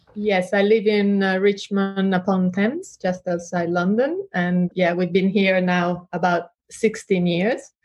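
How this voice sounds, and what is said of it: Mixed Italian-influenced accent. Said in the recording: “We can tell a little bit from your accent. You don't sound like a Londoner at all. ... I have a mixed accent. ... I think you sound Italian”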